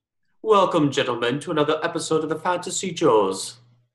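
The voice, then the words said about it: Unidentifiable put-on accent. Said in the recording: “I like that accent. I don't know what that is, but it's interesting.”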